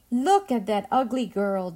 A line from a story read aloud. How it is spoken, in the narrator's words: they laughed